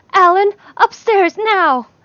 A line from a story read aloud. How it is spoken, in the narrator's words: yelled